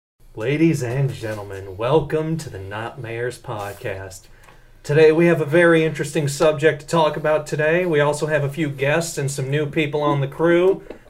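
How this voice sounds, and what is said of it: Put-on accent. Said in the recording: “fucking doing that accent ... it's the thing that just comes out of my mouth naturally”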